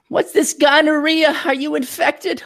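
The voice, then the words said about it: Old New York Jewish lady accent. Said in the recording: “some kind of old Jewish lady from New York? I don't know why she has that accent”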